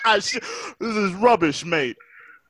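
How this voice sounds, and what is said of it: Put-on British accent. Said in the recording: “the British accent”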